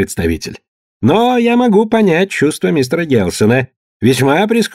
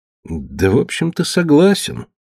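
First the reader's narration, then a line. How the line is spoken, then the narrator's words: Glum. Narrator (Russian): уныло сказал Гелсон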